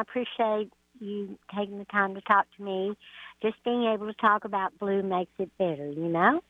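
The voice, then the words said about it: Texan accent. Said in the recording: “I love her accent. I swear, it's great. She's from Texas.”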